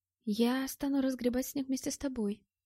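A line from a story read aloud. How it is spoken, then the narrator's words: Whisper. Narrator (Russian): сказала Мэтт шепотом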